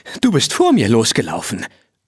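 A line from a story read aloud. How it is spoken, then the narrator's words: Panting. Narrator (German): keuchte Rose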